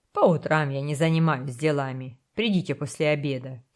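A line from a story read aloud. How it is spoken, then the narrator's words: Grumbling. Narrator (Russian): проворчал Кастанеда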